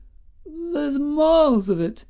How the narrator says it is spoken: quavered old Woodyfield

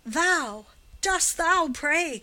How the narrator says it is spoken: cried Giovanni, still with the same fiendish scorn

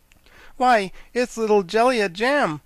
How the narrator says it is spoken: exclaimed the Scarecrow

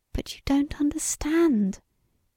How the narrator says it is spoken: she whispered passionately

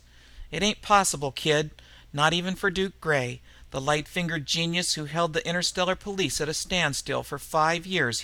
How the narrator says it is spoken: he laughed

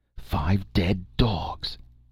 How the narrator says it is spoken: exclaimed Techotl, his flaming eyes reflecting a ghastly exultation

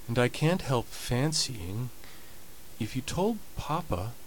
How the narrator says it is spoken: said Molly timidly and doubtfully

